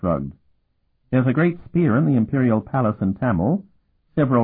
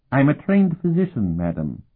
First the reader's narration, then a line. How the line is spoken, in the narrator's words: he replied stiffly